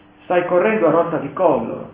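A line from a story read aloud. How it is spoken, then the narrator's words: Plain. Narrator (Italian): disse Mary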